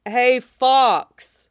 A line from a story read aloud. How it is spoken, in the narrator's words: Wolf shouted